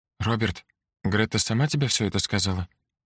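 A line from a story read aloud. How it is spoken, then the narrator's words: Quiet question. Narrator (Russian): тихо спросила Эльза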